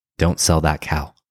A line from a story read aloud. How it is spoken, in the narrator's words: Mother Superior raised herself up in bed with a pious look on her face and whispered